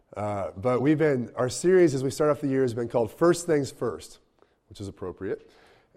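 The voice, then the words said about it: Congested, strained voice. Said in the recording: “excuse my voice, I've got a lot of congestion this week, and my throat has had some issues”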